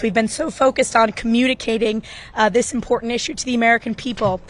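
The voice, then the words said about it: Hoarse, strained voice. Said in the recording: “I apologize, I'm losing my voice.”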